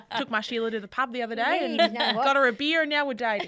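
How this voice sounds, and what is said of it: Australian accent. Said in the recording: “3 Australian accents”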